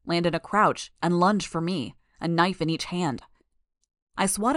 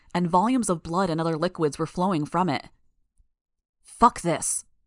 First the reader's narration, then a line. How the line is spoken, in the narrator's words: I growled